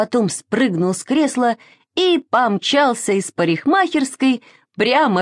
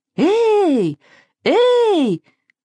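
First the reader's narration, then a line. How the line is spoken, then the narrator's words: Shout. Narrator (Russian): крикнул парикмахер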